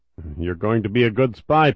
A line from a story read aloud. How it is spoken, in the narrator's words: Podolsky noted with a chuckle